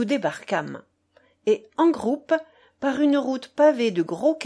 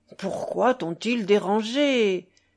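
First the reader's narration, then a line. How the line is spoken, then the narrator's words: Irritated grumbling grandmother. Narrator (French): grommelait grand-mère avec irritation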